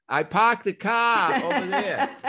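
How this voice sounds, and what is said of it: Boston accent. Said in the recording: “the New England Boston accent ... your original accent”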